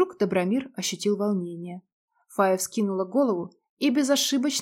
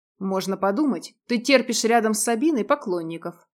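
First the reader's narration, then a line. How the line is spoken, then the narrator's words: Snapping retort. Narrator (Russian): огрызнулся Дим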